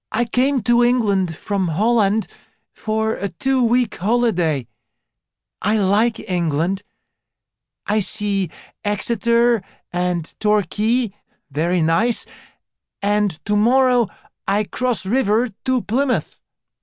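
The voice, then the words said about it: Cheerful voice, strong foreign accent. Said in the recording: “She had fair hair and a strong accent. ... The fair girl continued in a cheerful voice”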